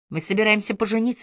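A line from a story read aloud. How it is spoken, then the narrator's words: Plain. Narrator (Russian): сказал он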